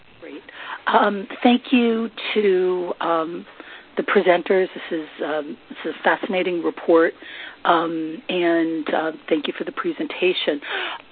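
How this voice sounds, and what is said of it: Voice sounds like a cold. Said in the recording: “I have a cold.”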